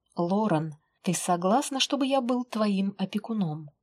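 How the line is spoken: Solemn and serious. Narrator (Russian): Это прозвучало торжественно и серьезно

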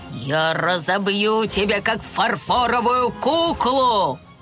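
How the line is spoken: Growled threat. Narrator (Russian): прорычал он

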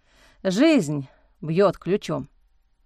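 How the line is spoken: Grim smirk. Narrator (Russian): мрачно усмехнулся Алекс

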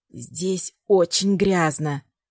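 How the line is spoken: Whisper. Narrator (Russian): прошептала она

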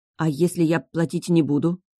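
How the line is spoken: Dejected, sinking voice. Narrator (Russian): спросила я упавшим голосом

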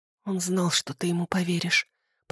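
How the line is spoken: Desperate whisper. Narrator (Russian): прошептала я, чувствуя, как отчаяние поднимается откуда-то из глубин души

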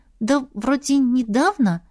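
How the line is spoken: Uncertain reply. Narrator (Russian): неуверенно ответила Ива

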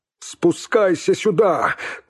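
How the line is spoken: Shout into a hole. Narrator (Russian): крикнул он в зияющую пустоту лаза

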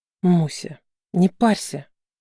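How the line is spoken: Sudden whisper from aside. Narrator (Russian): Вдруг где-то сбоку раздался шепот

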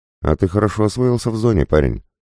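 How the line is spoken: Amused snort. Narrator (Russian): хмыкнул Петрович

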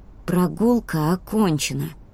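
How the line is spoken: Through gritted teeth. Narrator (Russian): сказала она сквозь зубы

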